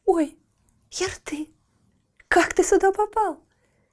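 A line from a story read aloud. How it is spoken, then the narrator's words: Girl's near joyful cry. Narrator (Russian): Чуть не вскрикнула от радости девушка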